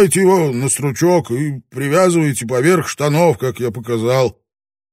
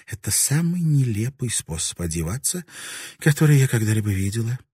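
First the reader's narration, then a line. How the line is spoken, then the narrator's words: Calm. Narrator (Russian): Марика спокойно сказала самураю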